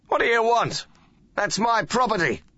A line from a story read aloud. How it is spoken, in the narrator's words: he shouted